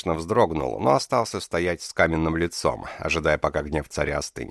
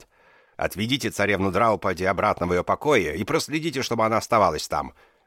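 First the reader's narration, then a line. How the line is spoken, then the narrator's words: Sharp royal command. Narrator (Russian): резко приказал царь евнухам-охранникам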